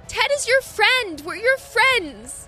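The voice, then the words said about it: Yelling. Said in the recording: “I'm just gonna yell ... As I'm yelling”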